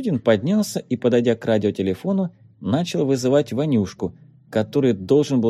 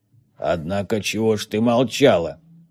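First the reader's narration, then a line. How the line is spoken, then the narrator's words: Menacing question. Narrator (Russian): грозно спросил Конобеев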